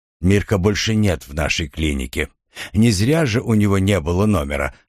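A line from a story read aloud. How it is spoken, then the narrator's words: Plain. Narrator (Russian): сказал он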